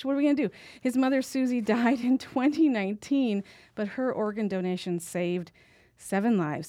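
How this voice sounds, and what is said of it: Choked-up, emotional voice. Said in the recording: “I'm already getting choked up”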